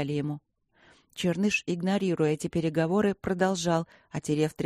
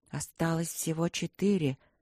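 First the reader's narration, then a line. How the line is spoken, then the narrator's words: Quiet. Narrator (Russian): сказал кто-то тихо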